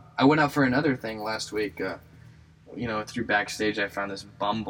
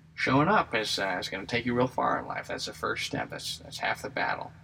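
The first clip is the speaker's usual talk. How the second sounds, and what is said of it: Put-on voice imitating a professor. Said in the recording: “I don't know why I did that voice. He did not sound like that at all.”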